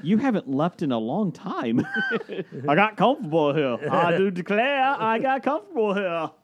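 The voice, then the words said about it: Deliberately bad put-on accent. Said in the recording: “That's almost as good as Scott Bakula's accent.”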